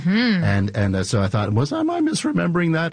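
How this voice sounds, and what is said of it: Voice jumps up in pitch. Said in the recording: “my voice went up like about an octave there”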